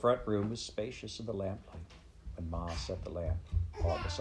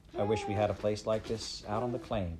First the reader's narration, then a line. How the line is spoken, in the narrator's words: Laura said